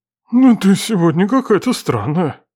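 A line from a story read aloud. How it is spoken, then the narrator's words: Hoarse, breathless. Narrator (Russian): Просипел родитель, едва отдышавшись и глотнув воды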